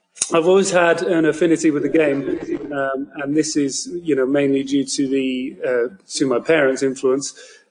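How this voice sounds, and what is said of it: British accent. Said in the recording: “As the listeners can probably tell, I am from the United Kingdom, so you probably don't hear many hardcore Boston fans speaking with this accent”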